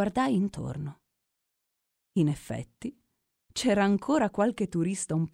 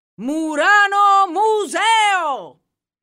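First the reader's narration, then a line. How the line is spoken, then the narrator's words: Mooring man shouting. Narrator (Italian): urlò l'ormeggiatore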